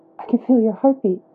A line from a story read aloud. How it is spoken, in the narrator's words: a soft laugh